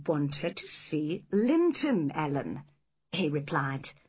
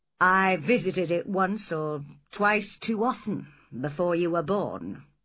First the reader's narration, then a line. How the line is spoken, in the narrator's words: he said